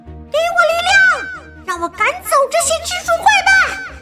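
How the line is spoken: Shout. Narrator (Chinese): 他喊道

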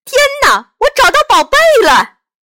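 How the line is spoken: Shouting from the jungle. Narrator (Chinese): 图图在丛林里喊

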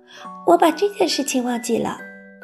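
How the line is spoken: Murmuring. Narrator (Chinese): 索菲喃喃道

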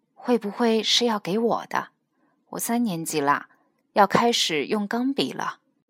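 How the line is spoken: Quiet. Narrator (Chinese): 他小声地说

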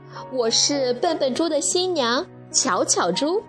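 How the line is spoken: Smiling. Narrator (Chinese): 巧巧猪笑了

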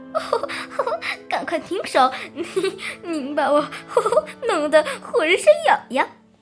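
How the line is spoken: Tiny giggling voice. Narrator (Chinese): 那个很小很小的声音，嘻嘻的笑着说的

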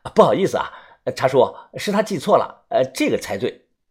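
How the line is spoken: Laughing. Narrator (Chinese): 我 笑着说

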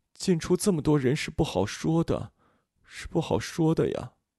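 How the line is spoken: Muttering to himself. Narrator (Chinese): 他喃喃自语

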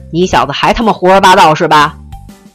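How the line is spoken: Roaring. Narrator (Chinese): 没等他吼完

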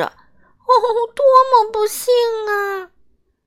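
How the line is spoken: Wailing. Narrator (Chinese): 忙碌小姐哀叫着

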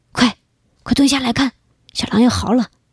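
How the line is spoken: Whispering. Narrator (Chinese): 陈真小声说

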